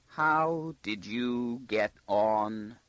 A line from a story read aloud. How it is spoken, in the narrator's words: he asked slowly, as though gripping each word with his teeth very carefully to prevent it from trembling before letting it out